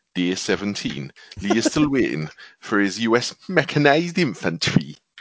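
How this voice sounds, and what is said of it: Put-on Geordie accent. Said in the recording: “do it in a Geordie voice like on Big Brother”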